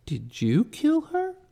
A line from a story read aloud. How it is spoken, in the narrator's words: Agnes gasped